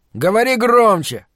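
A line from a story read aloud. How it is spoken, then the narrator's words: Irritated shout. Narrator (Russian): раздраженно крикнул он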